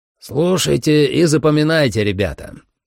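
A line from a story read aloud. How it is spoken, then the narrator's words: Loud but not commanding. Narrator (Russian): Майерс говорил громко, но на командирский тон все равно не было похоже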